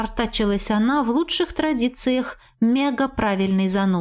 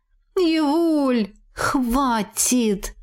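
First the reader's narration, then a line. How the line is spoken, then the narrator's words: Pleading. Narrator (Russian): взмолилась я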